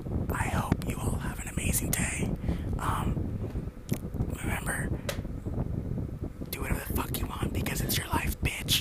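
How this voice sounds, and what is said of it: Soft ASMR-style voice. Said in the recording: “Say something in ASMR voice.”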